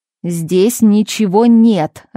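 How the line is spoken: Irritated man shouting. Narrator (Russian): раздраженно выкрикнул мужчина, выглянув из каменного мешка

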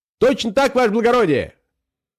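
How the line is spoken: Joyful, confident shout. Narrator (Russian): закричал Пискун радостным и уверенным голосом

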